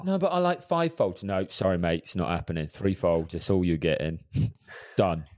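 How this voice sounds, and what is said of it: Put-on East End London accent. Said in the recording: “is he from the East End of London? ... I don't know why I went into that accent, but yeah, that's where he's from”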